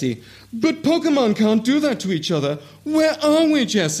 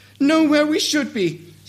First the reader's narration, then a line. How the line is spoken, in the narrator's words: sobbed Jesse